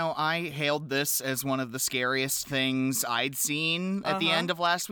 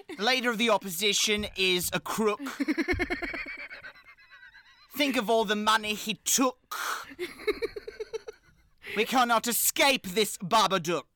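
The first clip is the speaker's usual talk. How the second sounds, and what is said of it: Weak put-on Australian accent. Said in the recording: “My Australian accent needs work.”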